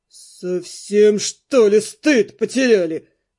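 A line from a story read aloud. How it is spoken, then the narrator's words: Speaking through clenched teeth. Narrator (Russian): Процедил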